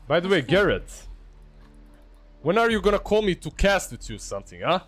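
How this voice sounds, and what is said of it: Slavic accent. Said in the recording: “my Slavic accent.”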